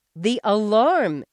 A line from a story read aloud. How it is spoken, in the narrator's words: she shouted, not caring if Jamie got awakened early or not